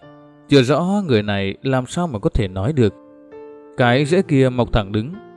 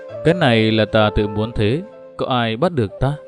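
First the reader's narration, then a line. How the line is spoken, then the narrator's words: Loud laughing reply. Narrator (Vietnamese): Dị nhân lại cười lớn đáp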